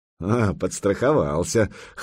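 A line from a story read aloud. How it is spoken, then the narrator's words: Wry snort. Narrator (Russian): хмыкнул Сергей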